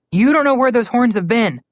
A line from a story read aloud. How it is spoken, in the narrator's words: Connor called out